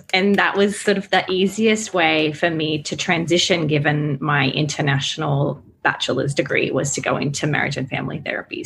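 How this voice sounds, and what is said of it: Slight Australian accent. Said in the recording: “I am Australian. That's why my accent is a little, you know, Aussie.”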